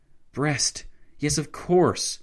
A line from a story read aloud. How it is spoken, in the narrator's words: Lloyd George exclaimed